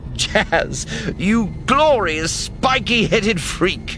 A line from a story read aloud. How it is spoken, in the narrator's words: Sinjir says, cackling